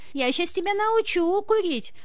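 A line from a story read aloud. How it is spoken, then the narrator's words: Sudden shrill scream. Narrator (Russian): вдруг визгливо закричала она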